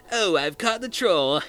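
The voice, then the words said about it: Weak imitation of a character's voice. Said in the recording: “my lame Ernest impression”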